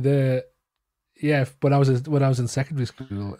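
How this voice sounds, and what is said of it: Usual voice. Nothing is said of it.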